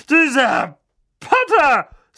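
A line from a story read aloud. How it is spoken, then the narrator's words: Loud. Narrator (German): sagte Tante Magda laut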